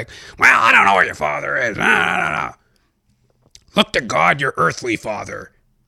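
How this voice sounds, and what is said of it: Mother impression, J. Jonah Jameson-like voice. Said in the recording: “my impersonation of my mother sounds like J. Jonah Jameson ... My mom didn't sound anything like that.”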